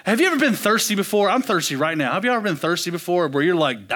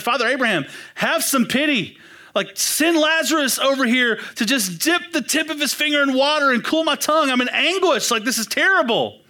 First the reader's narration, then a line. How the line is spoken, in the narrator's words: the rich man shouted